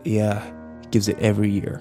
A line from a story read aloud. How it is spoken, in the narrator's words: Kyle muttered